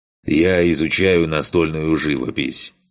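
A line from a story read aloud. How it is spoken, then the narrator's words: Wry snort. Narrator (Russian): хмыкнул в ответ тот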